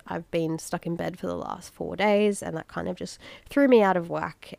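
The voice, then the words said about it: Congested, nasal voice. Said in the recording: “my voice is a little bit annoying, if it sounds a little bit congested and nasally, because I am getting over a really nasty head cold”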